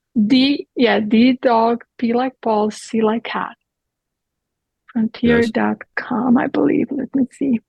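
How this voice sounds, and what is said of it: Speaks with a noticeable accent. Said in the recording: “That's my accent”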